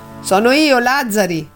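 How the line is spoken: Shouted. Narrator (Italian): gridò

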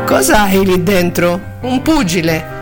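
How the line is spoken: Joking, slightly embarrassed question. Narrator (Italian): le chiese William in tono scherzoso, anche se lievemente imbarazzato

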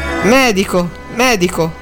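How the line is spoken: Almost stammering. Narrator (Italian): disse Drogo quasi balbettando

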